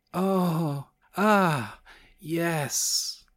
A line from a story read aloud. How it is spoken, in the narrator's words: she gasped